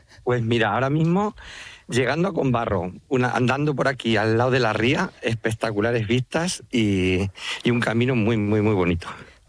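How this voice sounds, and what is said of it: Spanish speaker with Manchego accent. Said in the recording (Spanish): “Te ha salido a ti también el acento manchego ... Es que soy muy manchego.”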